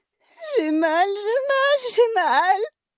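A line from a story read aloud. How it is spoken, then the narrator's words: Moaning in pain. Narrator (French): gémit Nathaline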